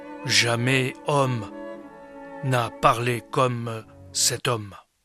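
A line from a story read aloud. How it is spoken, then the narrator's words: Solemn tone. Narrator (French): Ils répondirent d'un ton solennel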